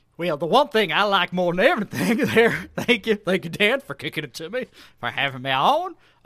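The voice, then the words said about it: Put-on West Virginia accent. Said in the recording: “I'm your West Virginia egg. I can only assume this is what their accent sounds like.”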